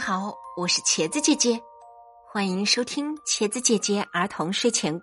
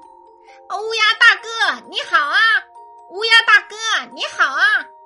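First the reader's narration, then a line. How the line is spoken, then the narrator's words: Repeated calling. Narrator (Chinese): 连续喊了几声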